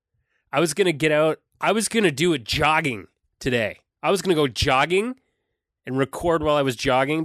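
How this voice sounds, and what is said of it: Sick, unwell-sounding voice. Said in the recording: “coughing into the mic ... ain't feeling too good right now ... hear it in my voice, but I am unwell ... I am sick”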